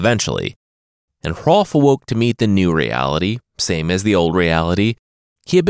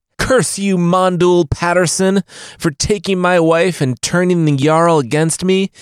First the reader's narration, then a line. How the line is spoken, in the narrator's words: Bjorn yelled before he started weeping